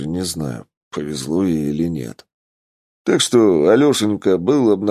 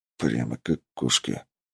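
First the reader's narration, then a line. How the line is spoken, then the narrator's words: Mumbling. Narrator (Russian): пробормотал я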